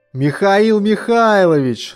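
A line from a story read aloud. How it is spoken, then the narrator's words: Joyful shout. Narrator (Russian): радостно закричал университетский товарищ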